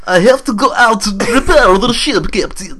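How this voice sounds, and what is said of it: Put-on Russian accent. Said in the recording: “Do the accent ... Russian accent”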